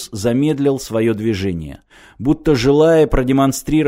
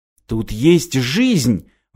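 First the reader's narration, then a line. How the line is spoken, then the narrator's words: Exclaiming. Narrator (Russian): воскликнул Мартин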